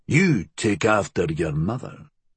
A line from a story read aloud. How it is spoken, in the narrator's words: father had grunted